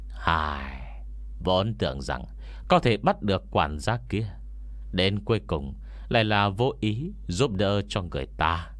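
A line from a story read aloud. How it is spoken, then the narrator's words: Regretful sighing old man. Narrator (Vietnamese): Ông già hiềm thay thở dài một hơi, rồi quay đầu nói với Ngô Miễn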